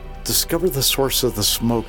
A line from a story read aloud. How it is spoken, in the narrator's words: said